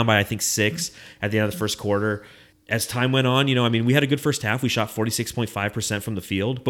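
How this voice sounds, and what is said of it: Usual voice. Nothing is said of it.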